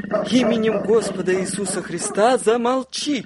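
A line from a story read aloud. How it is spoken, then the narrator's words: Impulsive shout. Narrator (Russian): крикнула я по наитию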